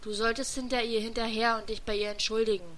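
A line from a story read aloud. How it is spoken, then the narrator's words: Calm. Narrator (German): meinte nun Motoki, ruhig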